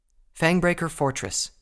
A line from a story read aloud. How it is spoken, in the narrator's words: she answered